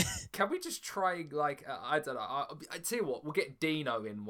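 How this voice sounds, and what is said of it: Usual voice. Nothing is said of it.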